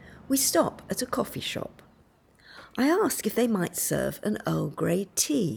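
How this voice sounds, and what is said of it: Usual voice. Nothing is said of it.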